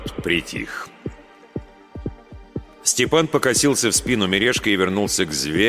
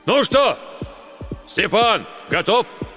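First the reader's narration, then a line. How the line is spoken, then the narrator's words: Village elder shouting. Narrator (Russian): староста крикнул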